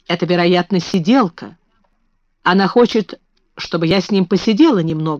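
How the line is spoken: Plain. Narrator (Russian): сказала она

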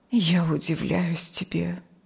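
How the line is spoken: Quiet. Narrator (Russian): тихо сказала мать

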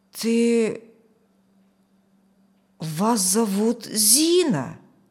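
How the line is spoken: Strained, nearly certain. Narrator (Russian): Почти утвердительно выдавил он

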